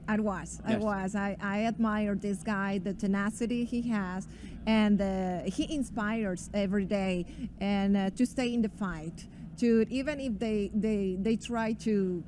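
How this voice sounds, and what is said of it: Colombian Spanish accent in English. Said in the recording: “So you have a beautiful accent. ... From Colombia. ... my broken English”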